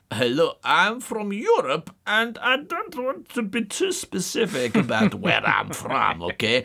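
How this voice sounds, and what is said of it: Vague generic European accent. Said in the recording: “they're probably going to do a kind of European accent”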